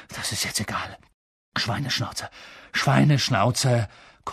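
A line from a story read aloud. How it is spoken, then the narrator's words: Panting. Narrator (German): keuchte Harry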